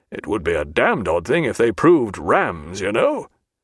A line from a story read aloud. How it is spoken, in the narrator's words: to himself, chuckling much, he added